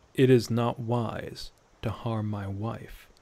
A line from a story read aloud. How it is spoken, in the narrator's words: said in a low, threatening tone